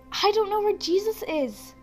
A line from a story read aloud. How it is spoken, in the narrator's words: Mary said urgently